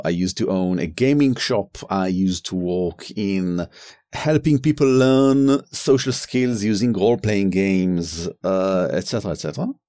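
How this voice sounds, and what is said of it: Noticeable foreign accent in English. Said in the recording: “my accent is a bit harsher than Aviv's”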